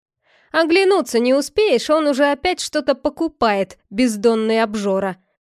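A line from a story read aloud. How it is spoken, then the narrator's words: Man laughing. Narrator (Russian): Засмеялся один из мужчин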